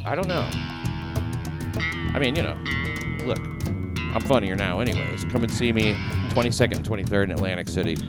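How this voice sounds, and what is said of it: New Jersey accent. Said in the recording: “the Jersey accent”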